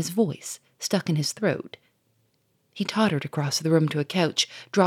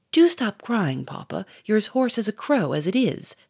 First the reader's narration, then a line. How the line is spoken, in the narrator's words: said Germaine impatiently